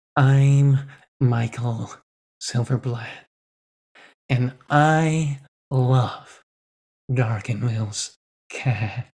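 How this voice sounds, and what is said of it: Impression of Michael Silverblatt. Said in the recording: “my Michael Silverblatt impression”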